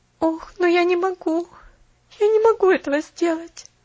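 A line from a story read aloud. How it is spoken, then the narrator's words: Moan. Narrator (Russian): простонала Поллианна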